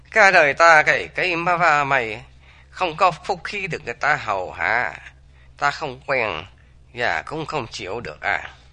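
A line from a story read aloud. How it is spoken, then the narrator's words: Smiling. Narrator (Vietnamese): Dương Mẫu mỉm cười nói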